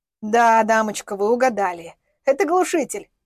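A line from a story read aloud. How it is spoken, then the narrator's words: Chuckling. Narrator (Russian): хохотнул хозяин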